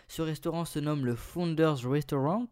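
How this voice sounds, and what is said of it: Put-on English accent. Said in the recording (French): “ce magnifique accent anglais”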